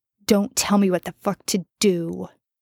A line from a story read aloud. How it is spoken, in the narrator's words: Jensen spat